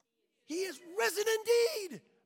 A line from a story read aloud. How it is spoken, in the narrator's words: everyone screams